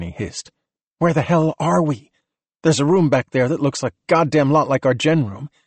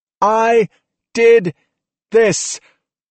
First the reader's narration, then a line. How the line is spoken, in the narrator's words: she shouted at the top of her lungs